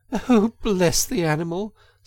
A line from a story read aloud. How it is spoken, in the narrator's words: said the girl, laughing